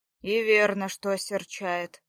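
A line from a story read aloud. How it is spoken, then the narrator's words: Grumbling. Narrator (Russian): пробурчал Ярослав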